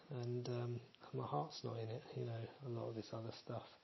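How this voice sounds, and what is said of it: Low, subdued voice. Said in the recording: “I'm feeling pretty low at the minute, as you can probably tell from my voice.”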